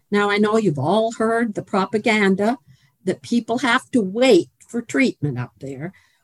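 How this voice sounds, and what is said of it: Canadian accent. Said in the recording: “my non-Kentucky accent ... born and raised in Canada”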